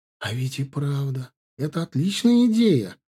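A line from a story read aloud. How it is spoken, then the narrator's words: Joyful exclamation. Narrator (Russian): воскликнула радостно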